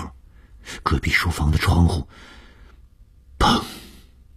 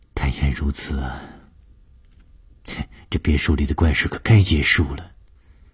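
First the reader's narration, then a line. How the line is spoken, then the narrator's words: Sighing. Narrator (Chinese): 舒子音叹了一口气说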